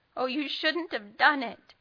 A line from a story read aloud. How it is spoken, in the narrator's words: David sobbed again and again